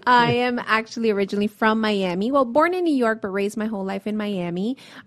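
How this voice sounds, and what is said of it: Miami accent. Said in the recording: “You can probably notice my Miamian accent.”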